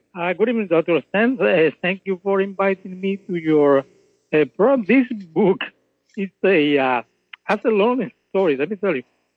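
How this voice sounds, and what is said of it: Noticeable foreign accent in English. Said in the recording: “as you can tell, ... has an accent. That's because, of course, he was actually raised in Cuba and came to America.”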